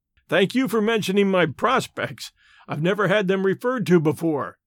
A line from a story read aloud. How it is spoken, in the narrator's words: laughed Stoddard